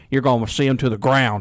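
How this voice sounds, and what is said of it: Imitates another person's voice. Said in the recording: “that's my Will Hall impression ... I don't think Rich Little has anything to worry about, does he?”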